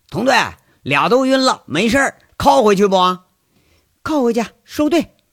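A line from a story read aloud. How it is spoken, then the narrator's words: Shouted. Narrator (Chinese): 一名警察啊，喊一句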